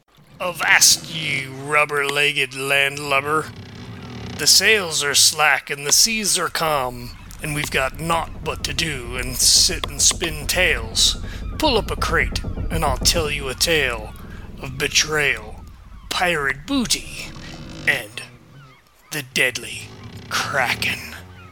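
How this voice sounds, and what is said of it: Pirate character voice. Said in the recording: “in a pirate voice”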